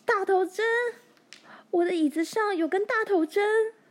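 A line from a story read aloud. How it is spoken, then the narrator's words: Shriek. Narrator (Chinese): 他尖叫道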